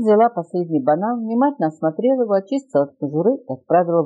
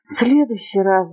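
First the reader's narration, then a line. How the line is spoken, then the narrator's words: Sighing. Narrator (Russian): вздохнул слоненок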